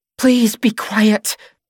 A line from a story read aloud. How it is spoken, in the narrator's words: Caroline pleads, glancing helplessly